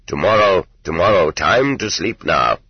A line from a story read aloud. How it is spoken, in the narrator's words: said Susi sternly